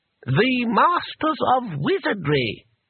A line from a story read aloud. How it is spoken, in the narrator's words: said the voice haughtily